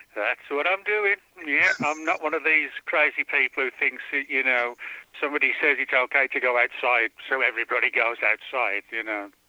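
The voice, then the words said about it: English accent. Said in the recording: “Originally from England ... which explains his strange accent”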